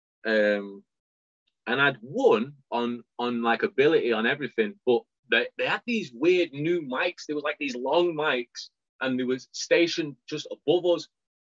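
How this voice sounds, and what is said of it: British accent. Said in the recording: “me, with my British accent, the judges couldn't understand anything I'm saying”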